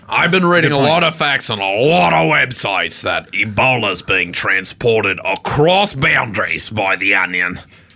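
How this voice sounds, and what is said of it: Put-on Australian accent. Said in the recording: “You have such an authentic accent. What part of Australia are you from?”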